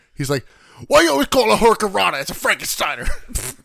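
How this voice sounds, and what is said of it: Scott Steiner impression. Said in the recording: “I like that impression.”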